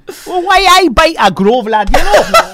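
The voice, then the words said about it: Put-on Geordie accent. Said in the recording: “Geordie accent ... can do Geordie. Wow, amazing.”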